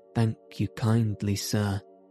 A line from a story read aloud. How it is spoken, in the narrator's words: said Toad in a feeble voice